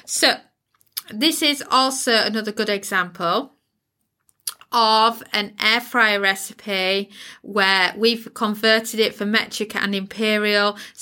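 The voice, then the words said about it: British English accent. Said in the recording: “if you live in the uk you can tell by my accent accent where i live”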